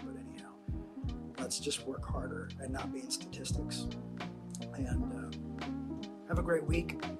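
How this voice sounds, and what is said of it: Hoarse, strained, fading voice. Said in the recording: “I'm losing my voice because I'm preaching the gospel. I had to sacrifice my voice today.”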